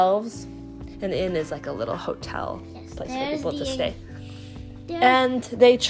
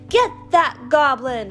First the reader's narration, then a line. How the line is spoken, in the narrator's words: shouted everyone